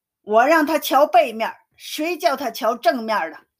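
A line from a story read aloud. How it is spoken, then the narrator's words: Call from above. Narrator (Chinese): 空中有人叫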